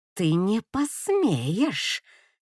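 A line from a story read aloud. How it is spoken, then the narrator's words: Through gritted teeth. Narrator (Russian): цедит сквозь зубы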